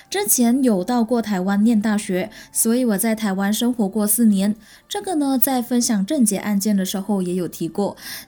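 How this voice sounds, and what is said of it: Malaysian Mandarin accent. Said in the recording (Chinese): “我是来自马来西亚的 ... 我的口音有一点不一样”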